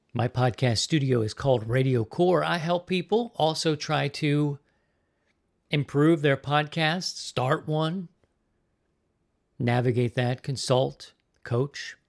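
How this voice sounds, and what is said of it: Slightly raspy voice. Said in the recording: “my voice sounds a little raspy.”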